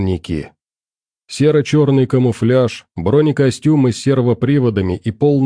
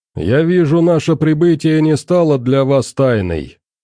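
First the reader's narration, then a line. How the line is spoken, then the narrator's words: Muffled voice over speaker. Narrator (Russian): Голос главного ревизора глухо зазвучал из динамика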